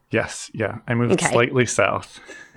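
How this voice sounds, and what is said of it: American accent. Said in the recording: “you're obviously also an American, as people can tell by our similar accents”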